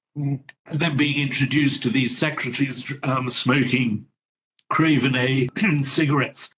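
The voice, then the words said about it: Voice failing, nearly lost. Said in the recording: “I've lost my voice there.”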